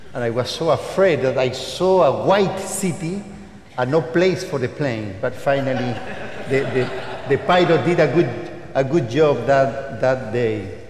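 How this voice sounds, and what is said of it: Strong Latin American accent. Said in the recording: “my strong Latin American accent”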